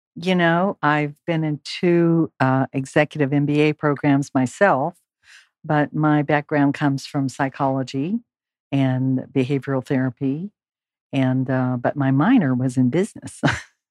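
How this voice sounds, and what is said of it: Slightly hoarse, croaky voice. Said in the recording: “I have a little frog in my throat.”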